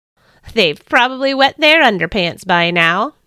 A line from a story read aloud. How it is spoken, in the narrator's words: I chuckled to myself